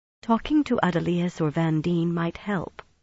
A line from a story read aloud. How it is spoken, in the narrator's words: she said gently